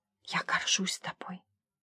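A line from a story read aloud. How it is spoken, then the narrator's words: Whisper. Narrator (Russian): прошептала я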